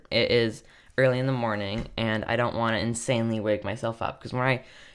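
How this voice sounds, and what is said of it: Tired, draggy voice. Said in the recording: “I'm sorry if I sound tired ... my voice sounds really, like, draggy”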